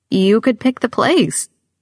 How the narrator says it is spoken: my grandmother says, her voice pleading

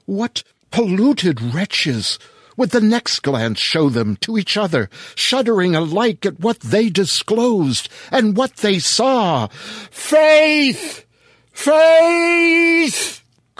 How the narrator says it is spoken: cried the husband

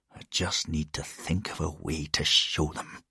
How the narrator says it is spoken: He muttered again

